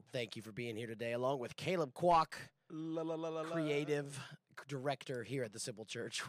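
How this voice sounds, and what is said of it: Scratchy voice from a cold. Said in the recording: “a little under the weather. My voice sounds a little different. Been a little scratchy getting over a cold”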